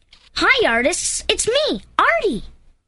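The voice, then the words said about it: Squeaky cartoon voice of Artie. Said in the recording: “can you do an Artie voice for us? ... a line that you can squeak out for us”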